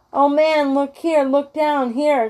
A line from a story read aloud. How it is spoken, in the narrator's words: exclaimed the ghost